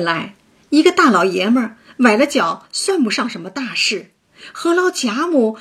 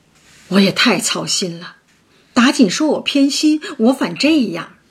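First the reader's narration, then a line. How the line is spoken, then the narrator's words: Sighing. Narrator (Chinese): 贾母叹道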